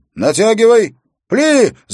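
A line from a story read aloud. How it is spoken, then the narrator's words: Shouting command. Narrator (Russian): закричал Уилл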